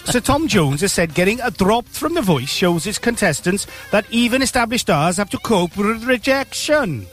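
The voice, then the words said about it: Bad put-on Welsh accent. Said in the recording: “Worst Welsh accent.”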